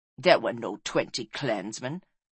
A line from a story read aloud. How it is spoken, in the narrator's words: sneered Ongist